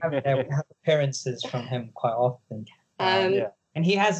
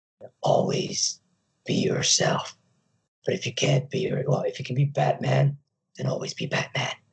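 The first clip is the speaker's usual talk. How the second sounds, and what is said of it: Lego Batman impression. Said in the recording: “That's a very good impression as well.”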